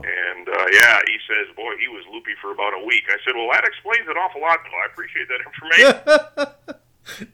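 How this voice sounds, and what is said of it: Minnesota accent. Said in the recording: “accent you have. That's not a South Carolina accent, is it? ... Nah, Minnesota.”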